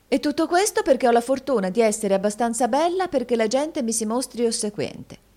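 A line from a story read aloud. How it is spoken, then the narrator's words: Exclaimed. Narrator (Italian): esclamò la signorina Price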